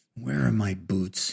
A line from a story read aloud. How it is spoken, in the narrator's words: he mumbled to the badly stained carpet